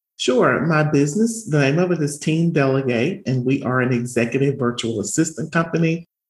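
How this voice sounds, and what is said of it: Southern American accent. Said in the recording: “she has a Southern accent”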